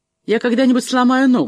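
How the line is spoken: Angry. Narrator (Russian): сказала Трикси сердито

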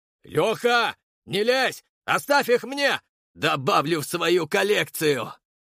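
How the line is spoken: Gleeful bark. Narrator (Russian): рявкнул с нескрываемой радостью

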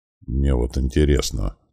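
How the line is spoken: Quiet amazed muttering. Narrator (Russian): тихонько бормотал я себе под нос, поражаясь увиденному

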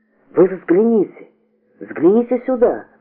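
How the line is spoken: Sudden exclamation. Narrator (Russian): вдруг воскликнул Платонов

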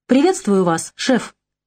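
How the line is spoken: Forced cheer over phone. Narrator (Russian): деланно бодро сказал в трубку Стив

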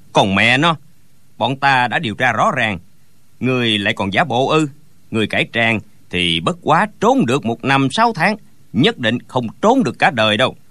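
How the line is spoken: Sneering. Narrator (Vietnamese): Gã cao kèo lại cười khẩy

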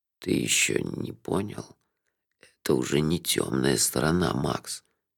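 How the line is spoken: Hoarse. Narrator (Russian): хрипло сказал Лонли Локли

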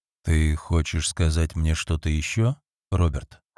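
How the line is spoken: Low-voiced question. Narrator (Russian): вполголоса спросил он

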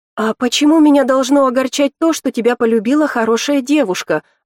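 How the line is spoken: Fervent exclamation. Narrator (Russian): воскликнула Ив с пылом

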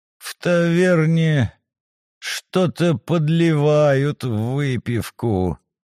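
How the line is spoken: Groaning over a bump. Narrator (Russian): Оболенский застонал на очередном ухабе

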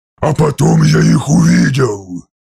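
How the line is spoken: Hissed. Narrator (Russian): прошипел примарх

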